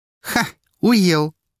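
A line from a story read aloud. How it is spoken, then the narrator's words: Laughing. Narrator (Russian): рассмеялась в трубку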